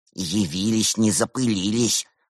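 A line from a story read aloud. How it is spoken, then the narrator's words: Young man's grumble. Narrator (Russian): буркнул юный Уйсур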